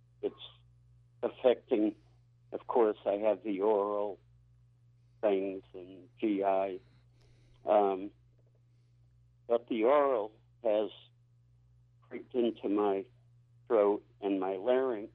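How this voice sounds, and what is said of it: Hoarse, strained voice. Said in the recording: “I'm losing my voice. ... you may hear hoarseness in my voice now.”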